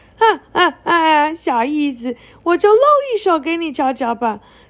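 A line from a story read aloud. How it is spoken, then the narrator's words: Booming laughter. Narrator (Chinese): 大飞龙对着天空大笑三声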